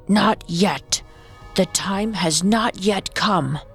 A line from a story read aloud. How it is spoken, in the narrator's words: Morgiana lowered her voice as deeply as she could and replied gruffly